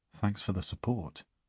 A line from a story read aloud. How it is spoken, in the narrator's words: she mutters